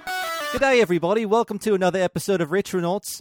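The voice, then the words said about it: Put-on Australian accent, drifting toward Cockney. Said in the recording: “before me accent slips, I might be Cockney at this point ... I can drop this entirely in our Australian contingent can stop unsubscribing en masse”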